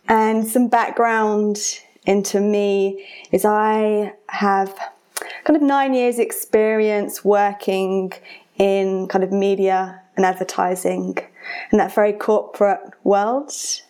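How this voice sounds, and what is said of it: British English accent. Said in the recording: “I have an accent because I'm British”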